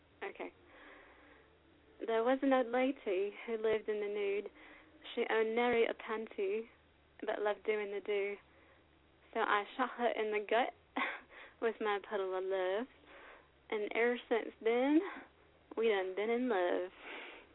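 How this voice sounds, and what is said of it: Fake British shifting to fake Southern accent. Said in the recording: “So I went from some sort of pseudo-British accent to, like, some sort of pseudo-southern accent, all in one poem.”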